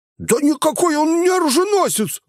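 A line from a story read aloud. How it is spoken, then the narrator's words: Howling wail. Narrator (Russian): взвыл Гнус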